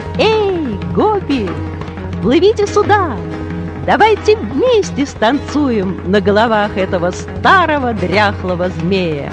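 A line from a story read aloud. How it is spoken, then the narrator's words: Cheerful shouting. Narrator (Russian): и он весело кричал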